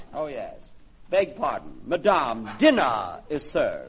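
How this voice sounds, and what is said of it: Exaggerated put-on butler accent. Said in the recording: “don't use such sick accent”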